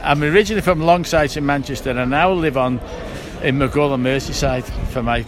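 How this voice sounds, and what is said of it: Manchester accent, slight Scouse tinge. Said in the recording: “You've got a little bit of a Scouse tinge to your accent.”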